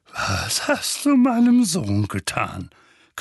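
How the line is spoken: Menacing growl. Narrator (German): knurrte er drohend

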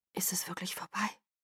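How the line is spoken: Whispering. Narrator (German): flüsterte ich Edward zu

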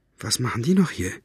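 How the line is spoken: Whisper. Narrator (German): flüsterte Farid

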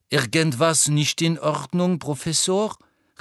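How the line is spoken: Calling out. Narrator (German): rief Madame Pomfrey

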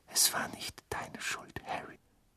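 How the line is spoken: Whisper. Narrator (German): flüsterte Mrs

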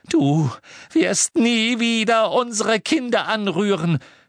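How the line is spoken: Shouted. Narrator (German): schrie Mrs

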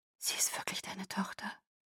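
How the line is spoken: Whispering. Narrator (German): flüsterte Carmen

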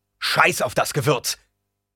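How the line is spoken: Roaring back. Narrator (German): brüllte der Herzog zurück

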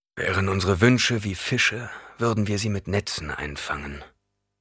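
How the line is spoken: Murmured. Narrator (German): murmelte

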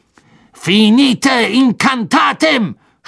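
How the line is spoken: Shouted. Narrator (German): schrie er

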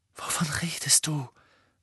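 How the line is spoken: Said fearfully. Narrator (German): sagte Ron ängstlich

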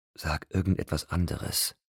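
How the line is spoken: Whisper. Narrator (German): flüsterte

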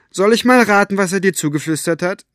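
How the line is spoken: Calling across distance. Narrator (German): rief Elinor über den Rasen

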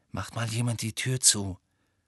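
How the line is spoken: Murmured. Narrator (German): murmelte Harry

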